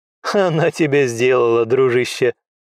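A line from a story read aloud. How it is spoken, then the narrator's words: Laughing. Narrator (Russian): хохотнул Рэй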